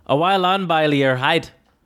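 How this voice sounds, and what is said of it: Attempted Scottish accent, not very good. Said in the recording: “My next one is Scottish, actually. ... I don't really know how to do a Scottish accent”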